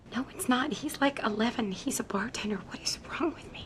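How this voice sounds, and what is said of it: Whispering. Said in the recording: “Why are you whispering”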